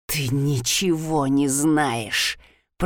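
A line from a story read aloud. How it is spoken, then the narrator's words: Hissing. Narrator (Russian): прошипела я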